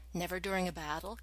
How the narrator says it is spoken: Carter asked

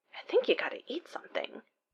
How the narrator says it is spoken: Simmons mutters

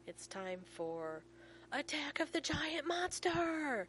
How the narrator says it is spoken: John says solemnly

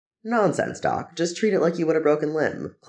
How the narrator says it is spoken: Clint says cheerfully

